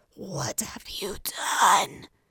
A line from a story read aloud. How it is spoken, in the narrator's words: He hissed